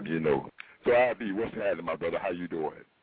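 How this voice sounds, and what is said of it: Exaggerated deep sexy voice. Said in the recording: “Let me get my sexy voice on ... step into my sexy voice ... this is the deep voice show”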